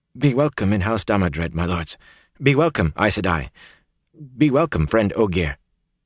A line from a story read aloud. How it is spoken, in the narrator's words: In a strangled voice he said